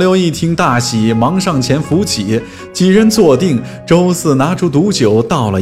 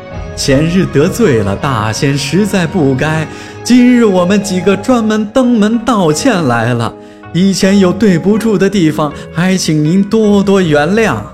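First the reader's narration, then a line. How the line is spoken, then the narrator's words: Smiling, apologetic. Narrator (Chinese): 周四满面笑容地做了一个揖道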